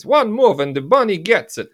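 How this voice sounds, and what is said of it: Malkovich impression with Russian accent. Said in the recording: “imagine him speaking with Russian accents ... I thought that was a Walken impression there for a minute.”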